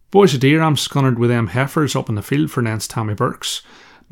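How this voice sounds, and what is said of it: Thick rural Irish dialect. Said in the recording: “my original rural Irish dialect, which is even more difficult to understand than the urban Derry accent”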